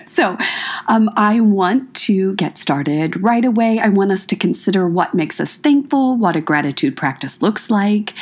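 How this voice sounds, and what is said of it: Low, calm, sick-sounding voice. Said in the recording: “I want to first apologize for my voice. I've been sick. ... you get to hear my nice, calm low voice”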